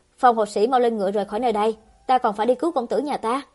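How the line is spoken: Impatient angry, through gritted teeth. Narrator (Vietnamese): Lạc Khiêm sốt ruột tức giận nghiến răng, nói

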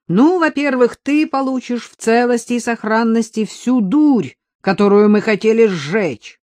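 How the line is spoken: Shouted. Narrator (Russian): прокричал Артем

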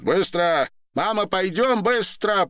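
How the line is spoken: Woman shouting. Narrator (Russian): прокричала женщина

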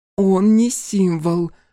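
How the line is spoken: Through gritted teeth. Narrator (Russian): процедила Диана сквозь зубы

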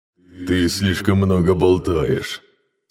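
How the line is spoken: Laughing growl. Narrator (Russian): смеясь, прорычал он

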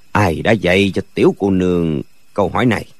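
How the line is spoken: Low, quiet question. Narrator (Vietnamese): Dư Thương Hải trầm giọng hỏi khẽ

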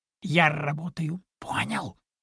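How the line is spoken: Loud whisper. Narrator (Russian): Понизив голос до громкого шепота, пояснил кролик

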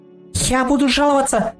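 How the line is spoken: Squeaky complaint. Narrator (Russian): пропищал он

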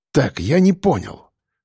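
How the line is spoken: Shivering mutter. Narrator (Russian): пробормотал шеф ежась от ноябрьского холода

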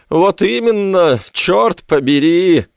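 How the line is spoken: Howling. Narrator (Russian): взвыл Мортимер Найт

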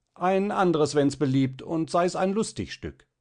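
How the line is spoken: Loud. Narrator (German): Laut

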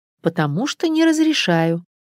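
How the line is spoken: Soft but firm. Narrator (Russian): мягко, непреклонно ответила Наташа

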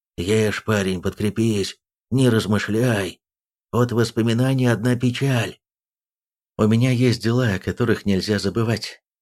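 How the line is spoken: Hoarse. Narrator (Russian): Йейн хрипло посоветовал

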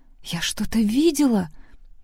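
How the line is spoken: Whisper. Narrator (Russian): прошептала Сэнди

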